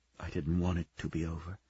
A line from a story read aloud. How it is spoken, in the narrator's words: she whispered